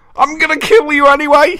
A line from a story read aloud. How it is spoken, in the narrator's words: he roared